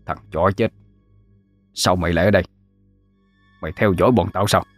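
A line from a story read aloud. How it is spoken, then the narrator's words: Harsh, through gritted teeth. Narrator (Vietnamese): Mẫn gằn giọng mà nói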